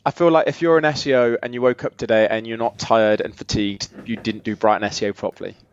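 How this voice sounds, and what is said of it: Slightly croaky voice. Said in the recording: “my voice is a little croaky”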